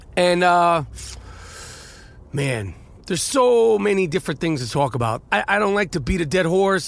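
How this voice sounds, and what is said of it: Nasal, congested voice. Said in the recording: “I'm still fighting this uh, nasal voice infection ... As you can tell, my voice is probably about 76%”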